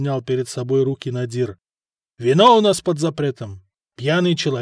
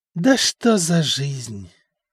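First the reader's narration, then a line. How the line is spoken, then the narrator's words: Sorrowful sigh. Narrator (Russian): горестно вздохнул Стефан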